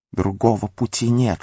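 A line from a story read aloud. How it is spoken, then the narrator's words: Whispered. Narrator (Russian): шептал Горлум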